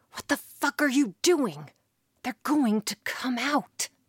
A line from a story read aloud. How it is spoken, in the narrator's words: The crewman was starting to get very nervous, whispering